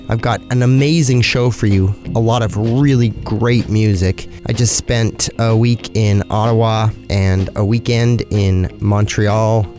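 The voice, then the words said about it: Sick-sounding voice with breaks. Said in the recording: “forgive my voice. I've either got allergies or I'm coming down with a cold. ... it's definitely affecting the way that I speak ... my few breaks here and there”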